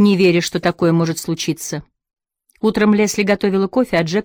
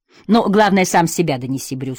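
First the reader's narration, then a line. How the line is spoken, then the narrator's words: Plain. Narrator (Russian): сказал Джек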